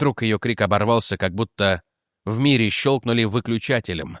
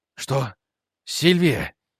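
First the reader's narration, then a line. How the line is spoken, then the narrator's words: Breathed out. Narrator (Russian): выдохнул Рик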